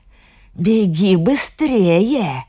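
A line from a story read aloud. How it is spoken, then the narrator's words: Hissed. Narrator (Russian): зашипела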